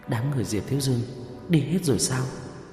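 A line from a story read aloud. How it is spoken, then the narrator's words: Quiet question. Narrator (Vietnamese): Vương Bình nhỏ giọng hỏi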